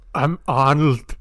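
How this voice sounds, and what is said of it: Arnold Schwarzenegger impression. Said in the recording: “your best Arnold impression ... That's good. ... Yeah, that was really, really good.”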